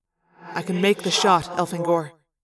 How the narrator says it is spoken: he said calmly

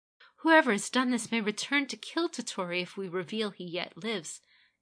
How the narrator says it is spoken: Kaede pleaded

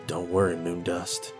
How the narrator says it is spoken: muttered

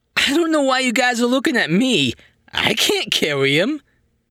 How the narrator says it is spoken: wailing

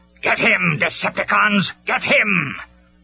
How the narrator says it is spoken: Megatron roared

